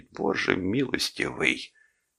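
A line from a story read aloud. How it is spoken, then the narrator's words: Strained, barely forced out. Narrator (Russian): кое-как выдавил из себя Дик Боуден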